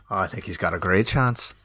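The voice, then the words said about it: Put-on Irish accent. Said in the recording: “in your Irish accent”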